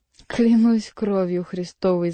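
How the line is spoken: Laughing. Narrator (Russian): засмеялся Келюс

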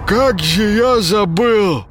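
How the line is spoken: Coughing, forced out. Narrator (Russian): откашливаясь, выдавил из себя Паша

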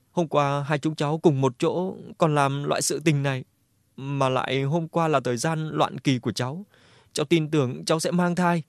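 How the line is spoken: Sobbing. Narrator (Vietnamese): Đường Lộ nức nở lên

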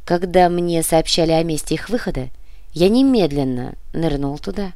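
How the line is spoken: Calm. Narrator (Russian): спокойно произнес Сантьяго

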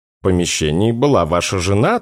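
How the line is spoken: Doctor's calm retort. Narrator (Russian): также спокойно парирует доктор

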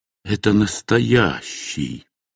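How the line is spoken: Whispering after a pause. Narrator (Russian): Наконец, некоторое время спустя, он прошептал

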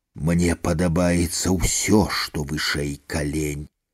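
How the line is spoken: Whispering. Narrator (Belarusian): Крытык зашаптаў

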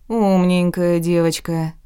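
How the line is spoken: Muttered through teeth. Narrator (Russian): процедил блондин

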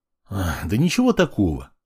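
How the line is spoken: Sigh. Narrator (Russian): вздохнул я

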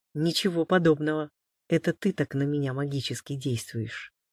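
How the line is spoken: Even more mysterious tone. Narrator (Russian): еще более загадочным тоном добавил тот

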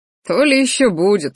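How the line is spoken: Short laugh. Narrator (Russian): хохотнул Рахтар

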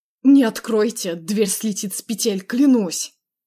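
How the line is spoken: Growling through teeth. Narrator (Russian): Прорычал сквозь зубы Андрей

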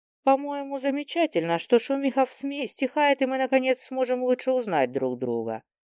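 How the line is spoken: Plain. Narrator (Russian): сказала

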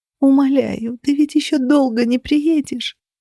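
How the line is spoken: Sobbing. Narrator (Russian): Всхлипывала я

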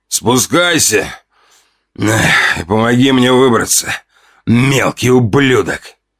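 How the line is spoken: Growled from darkness. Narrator (Russian): прорычали из темноты

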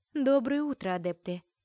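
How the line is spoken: Dry greeting. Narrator (Russian): Сухо поздоровалась Ульриха

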